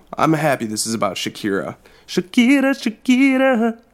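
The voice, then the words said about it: Imitates another person's voice. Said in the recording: “That was an amazing impression... It's like she's here.”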